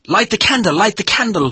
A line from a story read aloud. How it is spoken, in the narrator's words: he shouted